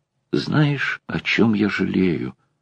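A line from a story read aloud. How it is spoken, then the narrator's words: Began whispering. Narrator (Russian): зашептала она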